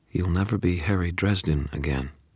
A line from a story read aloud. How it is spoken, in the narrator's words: something inside me said in a calm tone